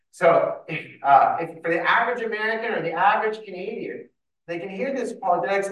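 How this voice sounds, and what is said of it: Canadian English accent. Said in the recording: “if you hear my accents, because I was born and raised in Canada”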